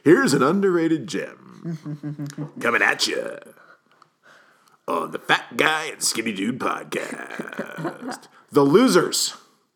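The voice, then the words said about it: Radio DJ voice. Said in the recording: “doing the DJ voice.”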